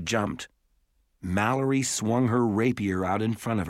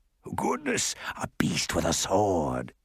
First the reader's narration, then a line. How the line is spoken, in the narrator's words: it hissed